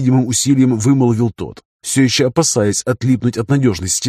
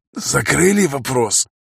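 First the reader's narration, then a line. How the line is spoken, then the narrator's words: Hoarse question. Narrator (Russian): хрипло спросил он у Зимникова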